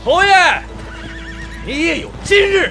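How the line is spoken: Excited laughing shout. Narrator (Chinese): 韩静不禁热血上头，先是大笑几声，接着摇摇喊道

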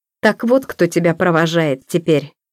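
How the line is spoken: Angry, curt. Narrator (Russian): зло бросил он

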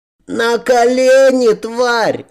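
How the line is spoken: Boy yelling. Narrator (Russian): орал мальчишка

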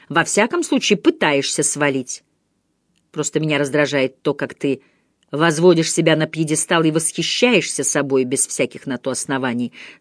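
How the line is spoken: Calm objection. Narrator (Russian): спокойно возразила Джейн

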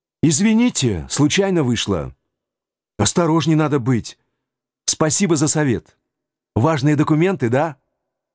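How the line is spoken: Brash exclamation. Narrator (Russian): Развязно воскликнул

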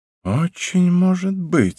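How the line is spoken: Sighing. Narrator (Russian): вздохнул я

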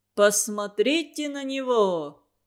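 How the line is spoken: Mocking commanding tone. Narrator (Russian): прозвучало издевательским командирским тоном

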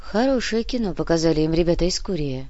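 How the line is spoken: Girl sighing. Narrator (Russian): вздохнула девушка

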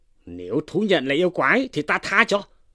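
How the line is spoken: Shouting. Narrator (Vietnamese): Tri phủ quát lên rằng

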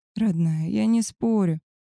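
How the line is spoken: Tired voice. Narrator (Russian): устало промолвил он

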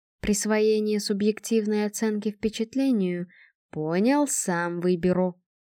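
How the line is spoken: Soft interruption. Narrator (Russian): мягко прервал ее телекинетик

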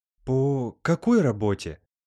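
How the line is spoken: Frightened, bewildered question. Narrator (Russian): Испуганно непонимающе спросила Аглая

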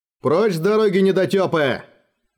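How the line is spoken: Yelling. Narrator (Russian): орал

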